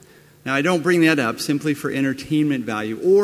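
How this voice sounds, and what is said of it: Usual voice. Nothing is said of it.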